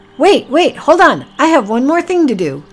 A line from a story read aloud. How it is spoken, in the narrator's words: Packy shouted